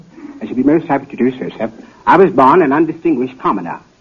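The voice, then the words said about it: British accent. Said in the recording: “an African prince with a British accent”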